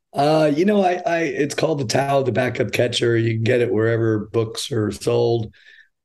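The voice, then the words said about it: Hoarse, gravelly voice. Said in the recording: “your voice is a little stripped there ... I'm about to go Louis Armstrong on you”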